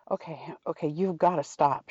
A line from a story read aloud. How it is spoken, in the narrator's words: Sherlock gasped out